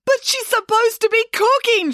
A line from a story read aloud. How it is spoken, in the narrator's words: shrieked Nanny Ann, her voice getting higher with every syllable